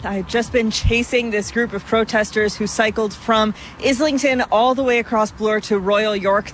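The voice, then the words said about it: Slightly out of breath. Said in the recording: “sorry, I'm a little out of breath.”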